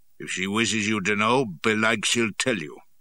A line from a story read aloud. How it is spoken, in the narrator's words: growled